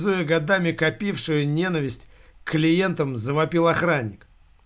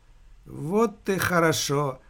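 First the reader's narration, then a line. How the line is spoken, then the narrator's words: Tired. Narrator (Russian): устало проговорил директор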